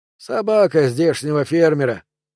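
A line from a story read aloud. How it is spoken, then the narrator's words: Sighing. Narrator (Russian): вздохнул Лоренс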